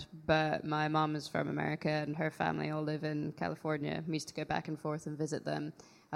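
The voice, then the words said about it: Slight American accent. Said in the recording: “a little bit of an American accent”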